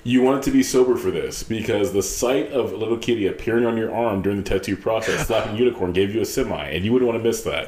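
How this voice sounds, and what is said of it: Announcer voice. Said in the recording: “In my best announcer voice.”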